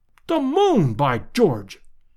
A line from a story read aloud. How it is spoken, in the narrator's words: cried Lord John